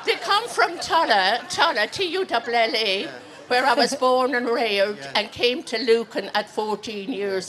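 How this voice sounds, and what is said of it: Irish County Clare accent. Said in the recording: “She still has I a Clare accent”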